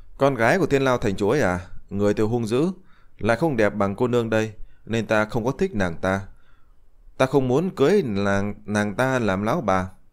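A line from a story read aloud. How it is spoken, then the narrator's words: Smiling. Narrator (Vietnamese): Diệp Chi Thu mỉm cười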